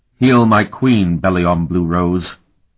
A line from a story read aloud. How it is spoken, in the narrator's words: he commanded in a loud voice